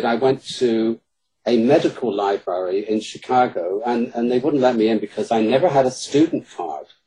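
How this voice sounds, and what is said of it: British accent. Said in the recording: “my British accent in Chicago works wonders”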